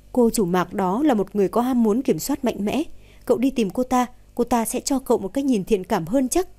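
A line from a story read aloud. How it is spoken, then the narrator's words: Laughing. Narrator (Vietnamese): Thẩm Lệ bật cười một tiếng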